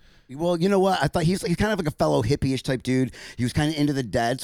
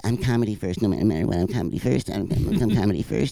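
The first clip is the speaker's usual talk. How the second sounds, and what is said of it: Imitates another person's voice. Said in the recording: “this is my impersonation.”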